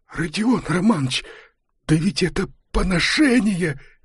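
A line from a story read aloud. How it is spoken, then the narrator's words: Fervent whisper. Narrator (Russian): горячо зашептал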